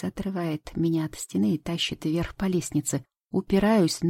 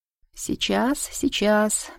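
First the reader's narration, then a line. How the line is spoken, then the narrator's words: Muttering. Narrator (Russian): бормочет Денис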